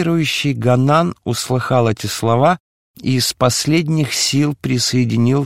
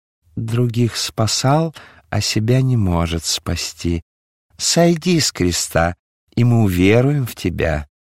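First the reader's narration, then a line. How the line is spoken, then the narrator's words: Quiet, clear, feigned pity. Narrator (Russian): Хитрый Анна, напустив на себя лицемерную жалость, ... тихо, но внятно сказал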